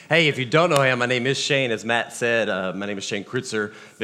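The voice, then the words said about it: Deep, rough voice with a cold. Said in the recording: “I promise I'm not trying to do an impersonation of James Earl Jones this morning. It's been one of those weeks of the crud ... I'll do my best not to cough and sneeze”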